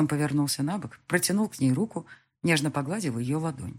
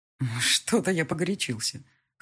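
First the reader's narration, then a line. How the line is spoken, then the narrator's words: Wry grunt. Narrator (Russian): хмыкнул он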